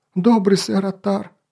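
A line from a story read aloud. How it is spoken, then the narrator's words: Sobbing. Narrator (Russian): снова всхлипнул Мон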